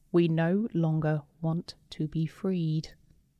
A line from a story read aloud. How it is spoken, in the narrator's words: heard a single phrase in a calm voice